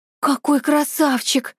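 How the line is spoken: Exclaiming in chorus. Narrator (Russian): хором воскликнули подруги

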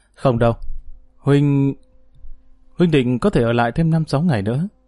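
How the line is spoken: Soft sighing. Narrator (Vietnamese): Dương Lăng khẽ thở dài nói

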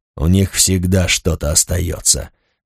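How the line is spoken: Gloomy. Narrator (Russian): мрачно произнес Рагнар

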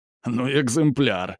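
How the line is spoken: Laughing. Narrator (Russian): засмеялся Юс

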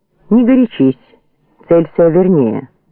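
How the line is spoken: Calm shouting. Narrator (Russian): спокойно покрикивал Звонарев

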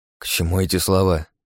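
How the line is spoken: Irritated mutter. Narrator (Russian): раздраженно буркнул я

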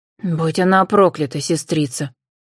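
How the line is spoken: Angry hiss. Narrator (Russian): злое шипение

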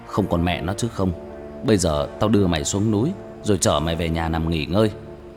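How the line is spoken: Irritated harsh voice. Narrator (Vietnamese): Tôi bực mình, gằn giọng

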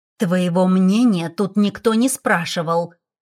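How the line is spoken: Young woman through gritted teeth. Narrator (Russian): проговорила сквозь зубы девушка

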